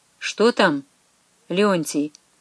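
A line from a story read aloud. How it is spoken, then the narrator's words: Quiet question. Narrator (Russian): вопросил негромко митрополит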